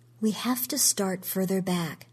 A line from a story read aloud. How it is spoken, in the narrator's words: she said